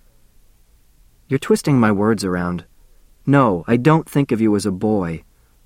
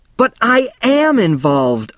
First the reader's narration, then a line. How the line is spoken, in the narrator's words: I shouted